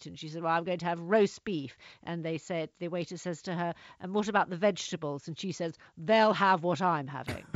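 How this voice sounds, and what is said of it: Rough, butch Margaret Thatcher impression. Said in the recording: “a very kind of male, very butch voice ... my voice isn't as good as Margaret, as good an impersonation as Stephen Allen”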